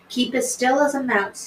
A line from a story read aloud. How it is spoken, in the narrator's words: she said